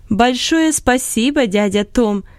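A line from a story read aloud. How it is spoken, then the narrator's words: Laughing loudly. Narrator (Russian): Смеясь громко, сказала Лотти Вудс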